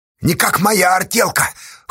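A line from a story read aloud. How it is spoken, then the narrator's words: Snorting. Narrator (Russian): хмыкнул Федька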